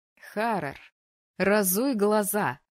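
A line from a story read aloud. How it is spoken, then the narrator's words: Rude, unimpressed. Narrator (Russian): грубо посоветовала ему Тереза, ни капли не впечатленная словами молодого дракона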